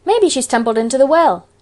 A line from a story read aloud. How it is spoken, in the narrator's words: suggested Davy cheerfully